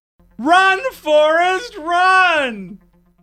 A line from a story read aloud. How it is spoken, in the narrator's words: Cops were able to slow the man down by shouting at him at the top of their lungs